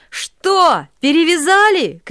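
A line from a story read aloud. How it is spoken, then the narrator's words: Cossacks shouting from below. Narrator (Russian): кричали им снизу запорожцы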